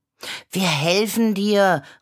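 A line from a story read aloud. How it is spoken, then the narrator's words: Calling out. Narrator (German): rief Clara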